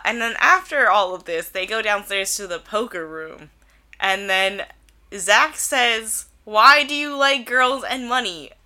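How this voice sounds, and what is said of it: Congested, stuffy cold voice. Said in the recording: “I have a cold.”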